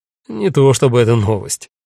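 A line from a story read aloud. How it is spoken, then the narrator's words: Wry snort. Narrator (Russian): хмыкнул он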